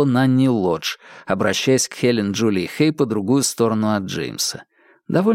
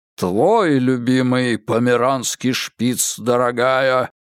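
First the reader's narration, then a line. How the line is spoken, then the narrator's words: Booming disapproving bass. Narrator (Russian): проговорил Генри Кэббот Лодж неодобрительным басом, от которого задрожали хрустальные подвески канделябра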